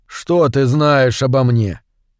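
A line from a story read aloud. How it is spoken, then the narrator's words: Very calm question. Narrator (Russian): очень спокойно спросил Кип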